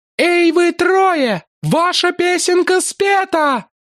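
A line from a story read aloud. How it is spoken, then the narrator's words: Shouting at full strength. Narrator (Russian): закричала, что было мочи, жрица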